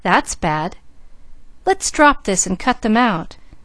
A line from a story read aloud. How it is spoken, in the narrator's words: cried Mickey